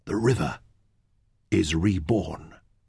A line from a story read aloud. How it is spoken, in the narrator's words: Fenn whispered